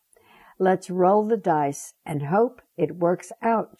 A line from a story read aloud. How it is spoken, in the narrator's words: she said